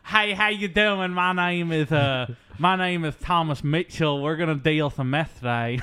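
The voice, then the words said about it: Flamboyant Texan character voice. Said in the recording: “A flamboyant ... Texan psychiatrist ... I'm going to do his voice.”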